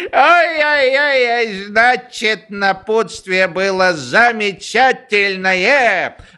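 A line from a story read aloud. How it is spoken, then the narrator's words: Joyful guffaw. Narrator (Russian): Радостно захохотал генерал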